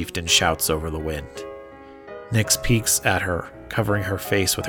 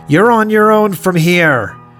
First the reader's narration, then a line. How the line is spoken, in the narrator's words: the chieftain shouts again